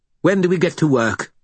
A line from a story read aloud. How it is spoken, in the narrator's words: Bob asked brightly